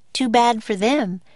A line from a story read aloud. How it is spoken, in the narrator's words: she said cheerfully